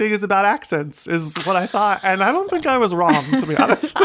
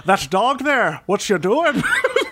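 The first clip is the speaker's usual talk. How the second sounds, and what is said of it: Put-on Irish accent. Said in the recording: “I did them in an Irish accent”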